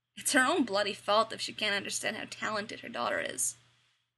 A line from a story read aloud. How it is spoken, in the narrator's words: sneered, disgusted once more